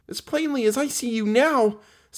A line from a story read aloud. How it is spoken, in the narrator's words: said little Jean, whose legs were given way beneath her